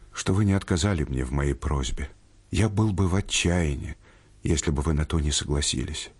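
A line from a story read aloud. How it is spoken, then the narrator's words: Quiet sad voice. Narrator (Russian): сказал он и тихим, и печальным голосом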